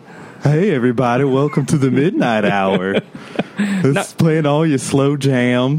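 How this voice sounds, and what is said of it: Exaggerated radio DJ voice. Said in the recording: “That's my radio voice... Did you hear it doing a DJ?”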